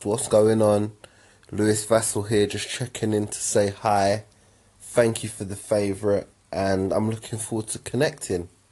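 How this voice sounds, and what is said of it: Distinctive accent, sounds wealthy. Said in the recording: “your accent and your voice, your whole demeanor, the whole sound of you ... That's just how you fucking sound ... you sound like a billionaire”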